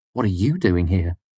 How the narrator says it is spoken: I asked

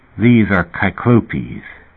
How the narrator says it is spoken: Fat said faintly

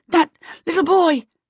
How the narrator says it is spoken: she gasped at Sim

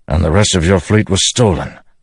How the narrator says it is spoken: Dalinar said with a grunt

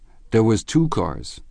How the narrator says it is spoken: said Michaelis

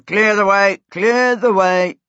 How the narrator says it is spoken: deep shouts of

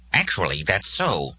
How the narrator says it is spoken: Nurbcold Dak said in his kindly way

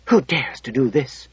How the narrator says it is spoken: she whispered

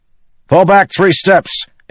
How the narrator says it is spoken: Adolin shouted to his men

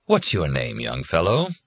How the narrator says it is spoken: Kindly Dad said in a warm, sympathetic voice

